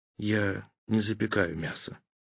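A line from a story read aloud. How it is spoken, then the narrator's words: Forced through gritted teeth. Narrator (Russian): сквозь зубы выдавил академик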